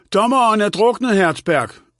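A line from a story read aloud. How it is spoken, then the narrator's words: Shouting. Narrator (Danish): råbte hun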